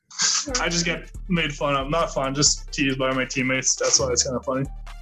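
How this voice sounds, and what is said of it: French (Québécois) accent in English. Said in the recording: “I could hear the French accent coming out... Francophone, so I can hear the same accent”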